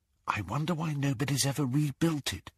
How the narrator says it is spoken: whispered Hermione

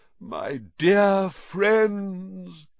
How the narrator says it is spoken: he said mournfully

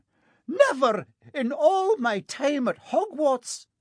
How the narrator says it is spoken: Professor McGonagall was almost speechless with shock

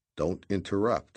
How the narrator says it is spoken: I said

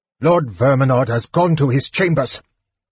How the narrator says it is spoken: Pyros called out, irritated at the interruption

